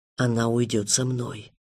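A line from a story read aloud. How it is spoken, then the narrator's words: Whisper, inhuman speaker. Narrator (Russian): прошептал тот, кто не называл себя человеком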